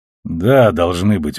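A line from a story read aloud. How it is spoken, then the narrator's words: Gruff mutter. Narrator (Russian): буркнул он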